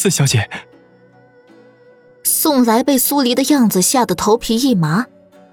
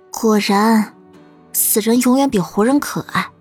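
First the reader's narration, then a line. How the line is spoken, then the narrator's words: Sighing. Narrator (Chinese): 苏黎……叹了句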